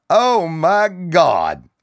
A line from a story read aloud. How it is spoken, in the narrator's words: Bill hollered above the noise